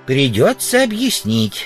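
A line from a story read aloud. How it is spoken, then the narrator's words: Plain, old man. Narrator (Russian): сказал старик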